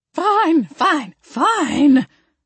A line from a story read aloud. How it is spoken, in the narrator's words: Grandma Ruthie screeched